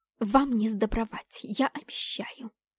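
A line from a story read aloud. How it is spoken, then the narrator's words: Hissing threat. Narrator (Russian): пришипела на нас однокурсница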